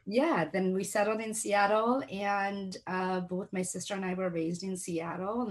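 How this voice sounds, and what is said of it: Slight non-native English accent. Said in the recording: “I got to learn to speak English, hence I have this slight little accent. But if I have a couple of drinks, the accent's a lot worse.”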